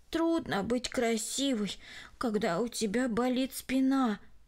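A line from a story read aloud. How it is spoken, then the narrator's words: Sighing. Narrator (Russian): вздохнула она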